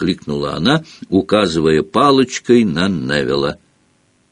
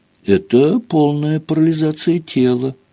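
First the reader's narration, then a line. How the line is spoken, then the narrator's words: Sad. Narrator (Russian): грустно ответила Гермиона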